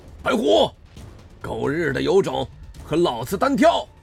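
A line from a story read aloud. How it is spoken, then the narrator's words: Roaring. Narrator (Chinese): 向峰一声大吼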